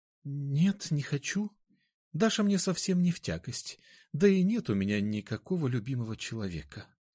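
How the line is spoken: Barely audible. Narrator (Russian): еле слышно ответила она

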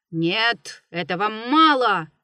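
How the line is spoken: Old man shouting boldly. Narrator (Russian): закричал дед, прихрабрившись

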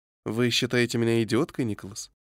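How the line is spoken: Sympathetic inquiring tone. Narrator (Russian): Сочувствующим тоном осведомилась миссис Сент-Джон

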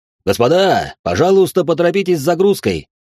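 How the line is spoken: Captain shouting from deck. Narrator (Russian): прокричал с палубы капитан

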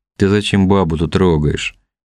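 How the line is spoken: Lazy drawl. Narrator (Russian): лениво протянул Левша

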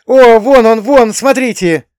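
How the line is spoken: Shouting teenager. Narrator (Russian): закричал кто-то из подростков

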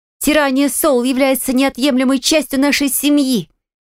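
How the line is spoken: Firm, lively shout. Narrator (Russian): Решительно и бойко выкрикнула Танни

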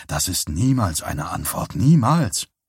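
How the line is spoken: Hoarse male voice. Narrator (German): sagte Johnny und war selbst überrascht, wie heiser seine Stimme klang

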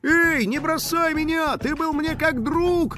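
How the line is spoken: Skateboarder's wailing yell. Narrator (Russian): завопил скейтбордист

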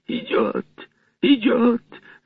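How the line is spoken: Shrill unnatural shriek. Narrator (Russian): завизжал Марвел не своим голосом

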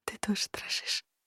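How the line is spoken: Smiling whisper. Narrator (Russian): улыбаясь, прошептала

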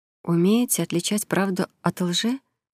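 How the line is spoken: Quiet clarifying question. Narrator (Russian): тихо уточнила она

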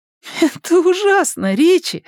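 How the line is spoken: Laughing. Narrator (Russian): смеясь, оценил его старание Беверли

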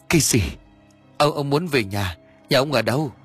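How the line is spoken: Trembling stammer. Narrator (Vietnamese): chân tay của ông run lên bần bật, miệng lắp bắp

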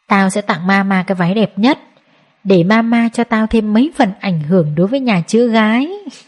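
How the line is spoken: Happy smiling speech. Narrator (Vietnamese): Mai Ca mỉm cười sung sướng nói

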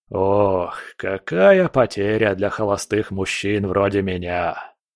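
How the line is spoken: Theatrical sigh. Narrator (Russian): Малкор картинно вздохнул

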